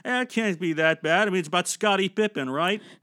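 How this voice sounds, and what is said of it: Imitates another person's voice. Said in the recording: “This is my Adam Sandler impression.”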